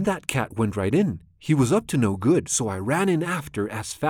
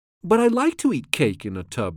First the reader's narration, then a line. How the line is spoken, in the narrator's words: laughed the cat